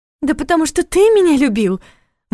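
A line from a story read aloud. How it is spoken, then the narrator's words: Excited exclamation. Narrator (Russian): возбужденно воскликнула Кристина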